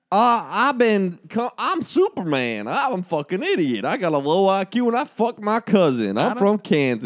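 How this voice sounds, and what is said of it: Put-on Kansas accent. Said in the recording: “What's a Kansas accent like?”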